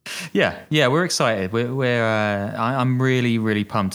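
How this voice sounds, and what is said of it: Flat, monotone, sarcastically unexcited delivery. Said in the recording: “as you can tell from my voice. Doesn't really waver up and down, right?”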